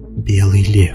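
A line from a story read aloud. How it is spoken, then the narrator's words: Whispered. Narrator (Russian): прошептала Кэти Бри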